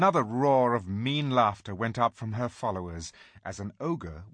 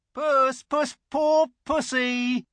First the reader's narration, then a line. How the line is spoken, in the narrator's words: jeering at him, saying